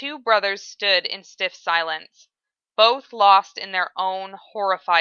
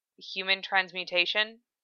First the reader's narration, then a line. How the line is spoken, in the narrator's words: Ed asked quietly, speaking the bitter words in his mouth